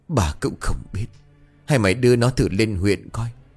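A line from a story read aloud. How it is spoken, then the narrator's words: Frail old man sighing. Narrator (Vietnamese): Ông Tư năm nay cũng đã già yếu, ông thở dài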